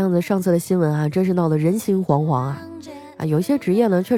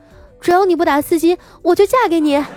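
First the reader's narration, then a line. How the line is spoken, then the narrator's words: Young girl speaking. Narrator (Chinese): 一个小妹妹过来对他说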